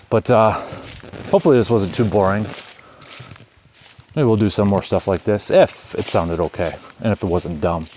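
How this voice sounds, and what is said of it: Out of breath while walking. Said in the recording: “I know I'm out of breath in that probably, but I'm getting old. All right. Got a backpack on it now”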